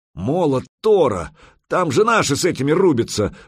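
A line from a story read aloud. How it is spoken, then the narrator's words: Roared. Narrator (Russian): взревел медвежья лапа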